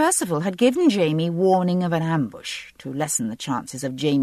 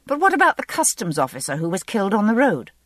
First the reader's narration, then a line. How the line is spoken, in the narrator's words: I asked sharply